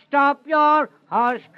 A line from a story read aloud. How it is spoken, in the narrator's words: cried Johnson